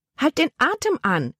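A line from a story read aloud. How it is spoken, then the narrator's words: Aunt calling out. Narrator (German): rief ihre Tante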